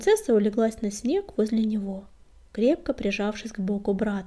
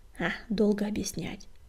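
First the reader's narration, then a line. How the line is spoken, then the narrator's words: Grumbling mutter. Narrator (Russian): буркнул Огнегрив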